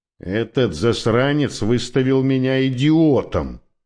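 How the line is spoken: Grumbled. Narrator (Russian): проворчал Коуди

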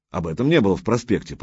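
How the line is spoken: Grumbled. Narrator (Russian): проворчал Юрий Игоревич

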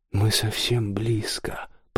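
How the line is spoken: Whispered. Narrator (Russian): прошептал он

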